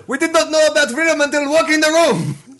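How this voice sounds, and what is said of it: Generic put-on foreign accent. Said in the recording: “I like your generic accent, by the way. that was very good.”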